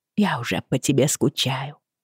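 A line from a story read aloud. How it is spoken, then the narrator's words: Very quiet woman's voice. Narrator (Russian): сказала она очень тихо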